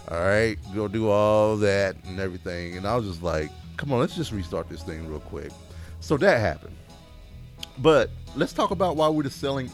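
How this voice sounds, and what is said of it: Accent, 'selling' sounds like 'sailing'. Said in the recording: “You say sailing. ... It's your accent. It's fine. It's cute.”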